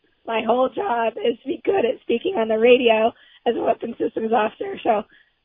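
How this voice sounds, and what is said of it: Hoarse, partly lost voice. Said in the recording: “I apologize for my voice. ... I lost it from all the talking and travel and germs”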